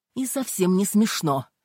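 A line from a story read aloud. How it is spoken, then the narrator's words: Barking. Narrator (Russian): рявкнула Ким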